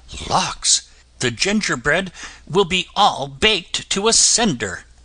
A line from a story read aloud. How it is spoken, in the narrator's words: in a hurry, exclaiming